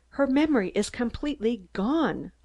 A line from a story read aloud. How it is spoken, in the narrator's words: I gasped